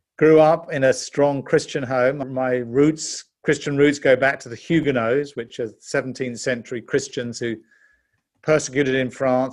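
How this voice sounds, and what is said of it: British English accent. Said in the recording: “you can tell from my accent, I'm actually a Brit. I was born in London”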